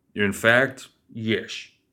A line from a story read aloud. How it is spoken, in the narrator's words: he said